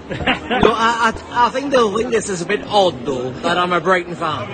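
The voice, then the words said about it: Northeast England Newcastle accent. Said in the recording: “You'll probably notice from the accent already that it's not a typical southern accent. ... he is from the northeast of England, namely Newcastle.”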